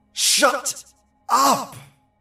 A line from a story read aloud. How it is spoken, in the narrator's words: David, who was kind of a hard-ass and the least superstitious of his family, shouted